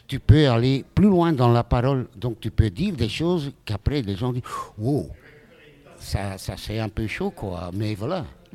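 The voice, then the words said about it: Slight foreign accent in French. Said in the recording (French): “Il y a un petit accent quand même”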